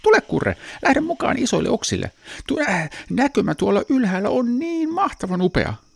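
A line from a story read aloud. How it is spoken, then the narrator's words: Cheerful big brother. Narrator (Finnish): hänen isoveljensä Seppo sanoi iloisesti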